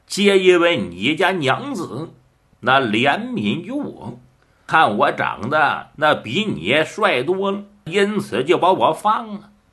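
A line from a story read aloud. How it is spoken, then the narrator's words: With a laugh. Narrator (Chinese): 倪继祖一笑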